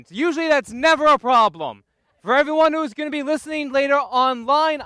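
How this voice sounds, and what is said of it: Loud shouting speech. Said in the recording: “sorry I'm shouting. Turn your volume down lower.”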